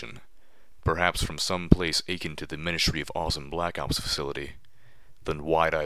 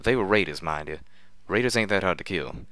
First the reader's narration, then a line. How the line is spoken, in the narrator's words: after a pause he quickly followed with